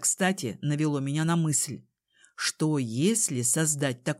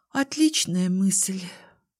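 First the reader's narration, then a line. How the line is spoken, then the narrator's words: Sighing. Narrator (Russian): вздохнула я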